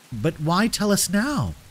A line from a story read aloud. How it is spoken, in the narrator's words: Octavia asked, her voice shaking slightly